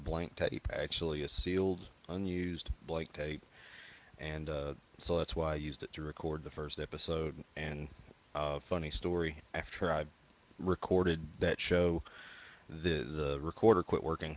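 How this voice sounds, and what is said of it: Mild Kentucky accent. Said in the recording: “my accent's actually not terribly thick ... I grew up in central Kentucky ... the further west you go, the milder the accent is”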